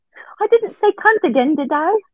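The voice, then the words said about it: Put-on English accent. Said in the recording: “Was that a good English accent or no? ... It was very good. You could play Oliver on Broadway.”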